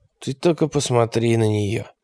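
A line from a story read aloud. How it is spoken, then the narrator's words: Mutter. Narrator (Russian): пробормотал он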